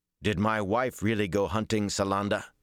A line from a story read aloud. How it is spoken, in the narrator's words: he growled heatedly